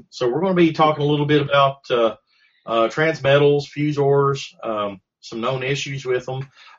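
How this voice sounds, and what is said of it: Voice not fully recovered, slightly hoarse. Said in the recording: “my voice is not 100%... my voice is not 100% yet, but I'm getting better... we're both recovered from the con SARS”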